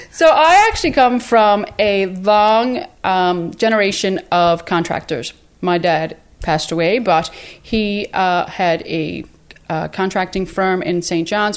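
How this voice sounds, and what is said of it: Newfoundland accent. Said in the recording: “I'm from Newfoundland. ... We love this accent.”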